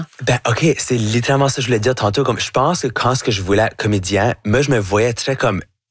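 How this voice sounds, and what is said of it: Acadian French accent. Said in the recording (French): “super acadien ... accent acadien ... j'ai un accent qui va jamais être neutre ... mon chiac”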